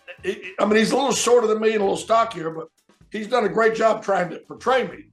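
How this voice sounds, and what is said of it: Gravelly Southern US accent. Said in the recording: “the gravel voice of me ... the accent ... southern accent”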